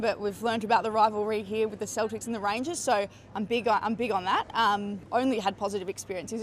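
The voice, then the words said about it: Australian accent. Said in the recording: “the Aussies who have come here... People just stop you to have a chat because they like the accent”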